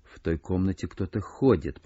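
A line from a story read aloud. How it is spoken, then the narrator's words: Whisper. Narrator (Russian): прошептал Холмс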